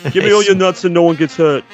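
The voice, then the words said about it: Put-on New Jersey accent. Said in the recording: “this chipmunk has a New Jersey accent”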